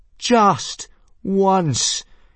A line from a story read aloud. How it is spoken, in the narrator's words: yelled Hiccup